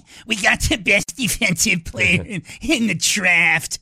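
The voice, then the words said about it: Imitates another person's voice. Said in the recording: “That's my Chris Ballard impersonation. ... Ballard, the GM of the Colts.”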